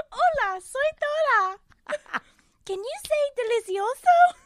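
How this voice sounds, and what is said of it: Imitates Dora cartoon character voice. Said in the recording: “my Dora impression.”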